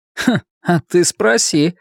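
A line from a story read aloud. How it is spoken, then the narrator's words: Loud snorting remark. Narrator (Russian): хмыкнул Василий, не понижая голоса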